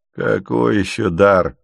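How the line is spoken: Mocking question. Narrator (Russian): насмешливо спрашивает бородач

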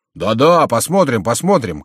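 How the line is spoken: Several voices shouting. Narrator (Russian): кричали другие

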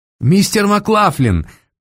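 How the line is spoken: Ringing shout. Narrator (Russian): звонко крикнула она

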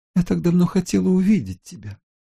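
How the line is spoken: Sobbing. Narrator (Russian): всхлипнула Мэри

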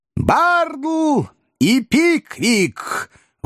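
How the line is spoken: Loud shout. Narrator (Russian): выкрикнул джентльмен в черном

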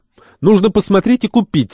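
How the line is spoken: Exclamation. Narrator (Russian): воскликнула Неджеп

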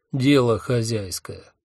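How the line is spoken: Cold. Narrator (Russian): холодно ответил я

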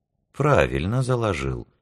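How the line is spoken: Calm reply, corporal. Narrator (Russian): спокойно откликнулся капрал

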